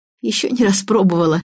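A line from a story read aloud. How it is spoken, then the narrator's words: Giggling. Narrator (Russian): хихикнула Лизавета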